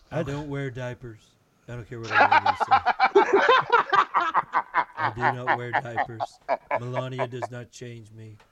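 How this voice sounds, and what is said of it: Imitates another person's voice. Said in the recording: “That's a great impression. ... I want an entire ... Donald Trump.”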